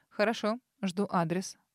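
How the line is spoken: Curt. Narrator (Russian): отрывисто кивнул Арман

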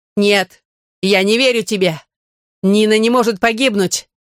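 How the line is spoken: Shouted in face. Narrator (Russian): крикнул он в лицо Каркона

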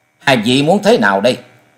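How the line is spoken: Cold. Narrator (Vietnamese): Trần Lâm lạnh lùng nói

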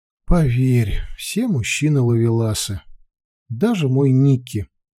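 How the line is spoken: Sighing. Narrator (Russian): вздохнула

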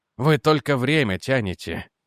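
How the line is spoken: Sigh. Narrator (Russian): вздохнул Реджи

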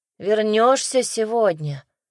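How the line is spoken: Sleepy. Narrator (Russian): сонно спросил мальчишка

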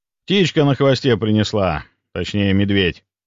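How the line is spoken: Snort. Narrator (Russian): хмыкнул я

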